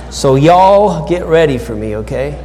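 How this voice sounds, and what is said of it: Put-on Texas accent. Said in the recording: “I am practicing my Texas accent.”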